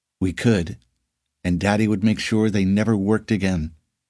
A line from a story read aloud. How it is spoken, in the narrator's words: Sari said